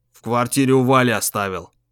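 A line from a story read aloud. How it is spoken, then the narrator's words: Gloomy mumble. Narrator (Russian): мрачно пробубнил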